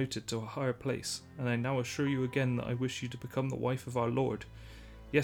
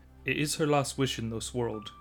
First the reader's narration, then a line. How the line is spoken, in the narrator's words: he said